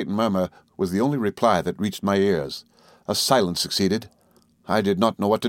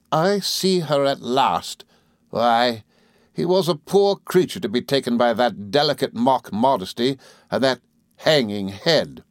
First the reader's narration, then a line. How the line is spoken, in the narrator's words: said Rosa Dartle, with a contemptuous laugh